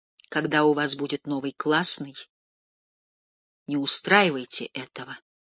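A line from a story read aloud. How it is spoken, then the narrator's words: Quiet. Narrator (Russian): тихо сказал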